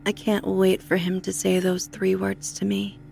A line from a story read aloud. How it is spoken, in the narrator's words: said evenly